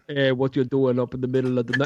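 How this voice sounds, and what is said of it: Put-on Jamaican accent. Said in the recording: “That was a Jamaican accent.”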